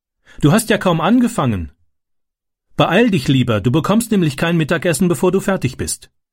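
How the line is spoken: Calling out. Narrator (German): rief sie

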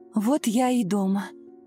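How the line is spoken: Relieved exhale. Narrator (Russian): с облегчением выдохнула Ирина

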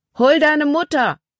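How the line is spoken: Called out. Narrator (German): Paul rief ihr zu

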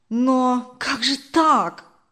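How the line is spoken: Confused exclamation. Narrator (Russian): Сбитый с толку, воскликнул Даниил

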